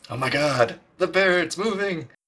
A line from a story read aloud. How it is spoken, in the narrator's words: Guige yells from across the room